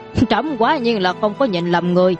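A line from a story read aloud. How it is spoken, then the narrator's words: Startled, then loud laughter. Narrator (Vietnamese): Trần Hoàng giật mình, sau đó lại cười lớn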